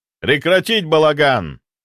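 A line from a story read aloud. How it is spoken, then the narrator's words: Barked. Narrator (Russian): рявкнул Стрельцов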